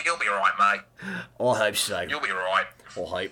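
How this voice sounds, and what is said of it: Bad put-on Australian accent. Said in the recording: “was the worst Australian accent ever... practicing your Aussie accent, mate”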